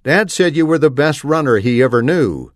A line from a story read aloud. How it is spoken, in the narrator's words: I said